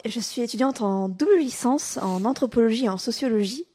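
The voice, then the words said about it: Southern French accent, Toulouse. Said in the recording (French): “comme vous avez subtilement pu l'entendre à l'accent du Sud, je viens de la meilleure ville de France, Toulouse”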